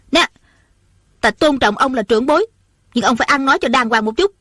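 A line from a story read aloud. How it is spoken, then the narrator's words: Angry, flushed. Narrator (Vietnamese): Ôn Thanh lập tức đỏ bừng mặt, giận dữ nói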